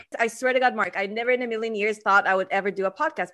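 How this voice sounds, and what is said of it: Non-native English accent. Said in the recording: “self-conscious of my accent”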